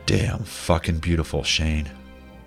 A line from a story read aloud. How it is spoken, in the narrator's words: Adam says softly